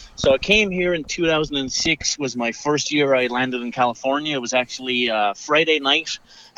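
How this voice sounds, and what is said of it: Irish accent. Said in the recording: “Clearly by the accent, people know you're not from Menifee, California ... got an accent ... Nope, I'm not Austrian. Close enough. Irish.”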